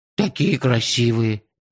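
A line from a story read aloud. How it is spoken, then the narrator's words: Sad sigh. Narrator (Russian): печально вздохнул Базилио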